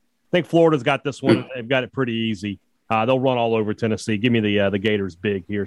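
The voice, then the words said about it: Impression of Dan Mullen. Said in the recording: “who are you impersonating there? ... Dan Mullen ... I thought it was Spurrier for a second ... Spurrier's a little more country”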